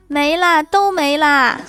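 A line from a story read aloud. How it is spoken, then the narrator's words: Louder. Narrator (Chinese): 老婆一会儿更大声的说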